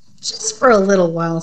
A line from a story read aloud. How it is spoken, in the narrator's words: said Dave